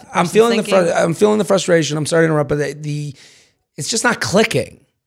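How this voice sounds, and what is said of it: Hoarse, rough strained voice. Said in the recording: “you can hear my voice ... my voice has been shit since we've taped so many in a row ... this sounds like I've smoked 60 cigarettes before we started”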